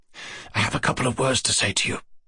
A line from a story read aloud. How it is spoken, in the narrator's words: he whispered